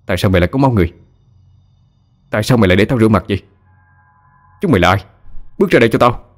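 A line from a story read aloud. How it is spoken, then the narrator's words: Angry shouting. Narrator (Vietnamese): Tấn tức giận hét lên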